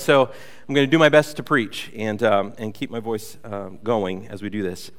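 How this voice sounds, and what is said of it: Congested voice with a cold. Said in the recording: “I have a little bit of a cold”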